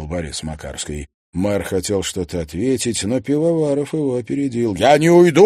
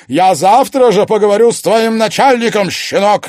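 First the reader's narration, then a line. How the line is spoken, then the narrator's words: Barked. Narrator (Russian): рявкнул он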